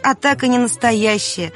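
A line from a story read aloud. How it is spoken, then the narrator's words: Laughing. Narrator (Russian): рассмеялся отец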